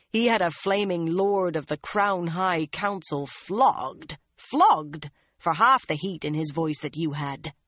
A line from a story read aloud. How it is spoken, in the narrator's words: the one-eyed man growled